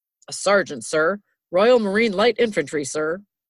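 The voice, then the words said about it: American military accent, not British. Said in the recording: “your military accent is such an American military accent as opposed to a British one”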